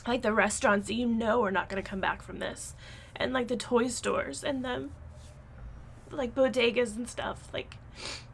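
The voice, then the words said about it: Emotional, choked-up speech. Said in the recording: “I'm afraid I'm going to get a little bit emotional”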